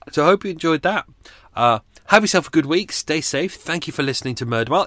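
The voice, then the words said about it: Sore, strained voice. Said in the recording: “My voice is screwed, sore, really sore today.”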